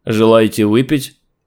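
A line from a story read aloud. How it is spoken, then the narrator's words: Dry question. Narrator (Russian): сухо спросил чувак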